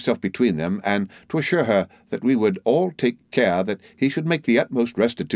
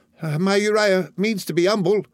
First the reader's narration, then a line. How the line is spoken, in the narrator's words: cried his mother